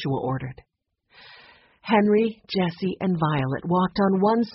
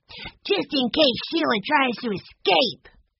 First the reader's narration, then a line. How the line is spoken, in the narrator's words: said fiercely